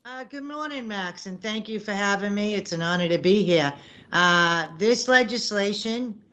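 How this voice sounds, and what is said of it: Noticeable regional accent. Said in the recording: “Is that accent something you had to practice, or do you just get it naturally? ... thank you for noticing the accent”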